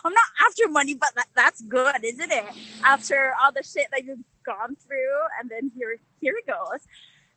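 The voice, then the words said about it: Northern English Newcastle accent. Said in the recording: “that accent? That's Northern England accent. ... Newcastle. ... your accent is so different from your regular London ... that accent is kind of up there”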